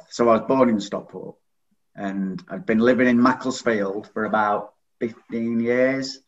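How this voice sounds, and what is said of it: Northern English accent. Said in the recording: “you might be able to tell from the accent, I'm from the north.”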